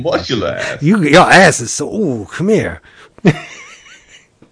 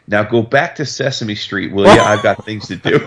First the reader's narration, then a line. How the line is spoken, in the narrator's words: laughs at him and he goes